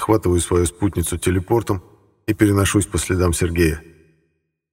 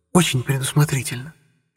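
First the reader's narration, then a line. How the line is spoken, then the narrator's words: Whisper near ear. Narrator (Russian): раздается возле уха шепот Анастасии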